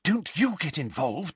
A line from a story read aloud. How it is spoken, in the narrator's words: Hermione whispered urgently to him